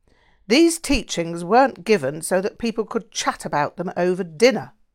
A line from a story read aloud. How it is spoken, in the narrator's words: snapped